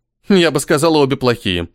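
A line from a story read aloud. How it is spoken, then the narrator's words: Snorting. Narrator (Russian): фыркнула Ирина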